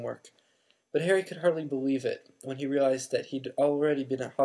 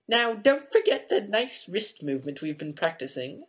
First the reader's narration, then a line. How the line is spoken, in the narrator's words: squeaked Professor Flitwick